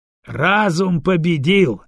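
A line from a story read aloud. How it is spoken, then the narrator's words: Laughing. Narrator (Russian): рассмеялся Фальчин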